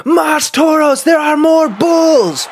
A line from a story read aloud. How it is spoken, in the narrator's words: someone yelled